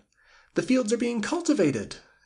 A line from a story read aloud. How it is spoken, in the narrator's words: exclaimed the woman